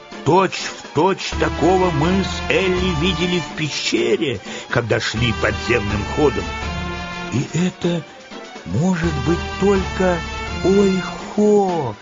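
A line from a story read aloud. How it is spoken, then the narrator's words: Delighted squeal. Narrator (Russian): в восторге взвизгнула Энни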